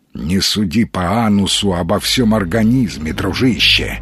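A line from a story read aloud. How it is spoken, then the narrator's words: Grumbling reply. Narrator (Russian): проворчал Маломальский в ответ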